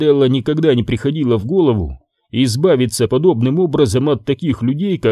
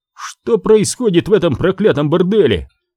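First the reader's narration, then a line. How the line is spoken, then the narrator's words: Yell. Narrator (Russian): завопил он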